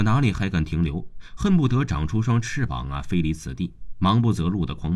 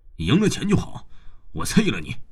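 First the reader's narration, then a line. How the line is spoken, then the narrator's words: Angry roar while chasing. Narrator (Chinese): 边追还边怒吼着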